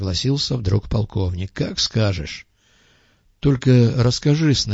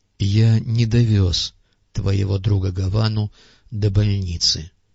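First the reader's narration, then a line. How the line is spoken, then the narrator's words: Calm explaining tone. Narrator (Russian): пояснил Андрей Сергеевич все тем же спокойным тоном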